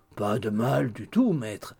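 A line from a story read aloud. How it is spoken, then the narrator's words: Humble grumble. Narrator (French): grommela Hugh d'un air humble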